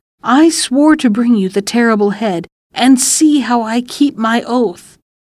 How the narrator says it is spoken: The boy cried

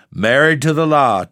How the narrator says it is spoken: chuckled Mrs

